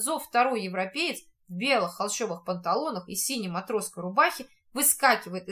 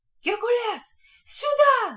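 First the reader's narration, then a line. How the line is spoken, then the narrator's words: Old man yelling. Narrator (Russian): вопит старик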